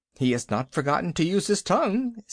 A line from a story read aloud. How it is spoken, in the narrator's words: said Baloo with a chuckle of pride